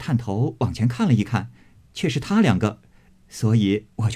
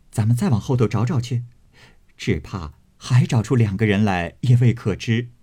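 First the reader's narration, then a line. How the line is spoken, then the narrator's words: Laughing. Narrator (Chinese): 平儿笑道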